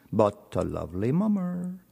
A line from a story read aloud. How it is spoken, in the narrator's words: he murmured to himself